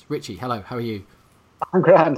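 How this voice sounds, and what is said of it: Put-on Irish accent, not convincing. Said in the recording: “what do you think of my Irish accent? ... Stop, please. Uh, sort of Pierce Brosnan, circa the film Evelyn. ... he does a really bad Irish accent.”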